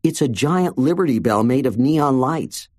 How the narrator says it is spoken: she said

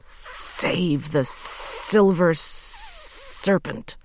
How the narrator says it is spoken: hissed Uncle Terrible

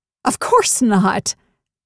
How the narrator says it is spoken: exclaimed

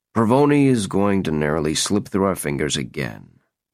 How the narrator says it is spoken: Barnes said gloomily

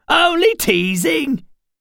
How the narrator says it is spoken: she laughed, a braying, high-pitched whinny, and said

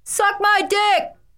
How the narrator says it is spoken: Embarrassed and enraged, I screamed after him

